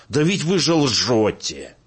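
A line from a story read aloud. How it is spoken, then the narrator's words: Woman's shout. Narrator (Russian): Женщина крикнула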